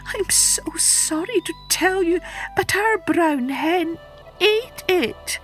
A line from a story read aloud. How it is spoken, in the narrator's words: wailed the woman